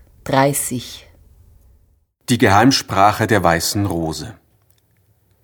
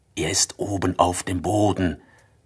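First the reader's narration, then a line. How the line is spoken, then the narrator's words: Whisper. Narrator (German): flüsterte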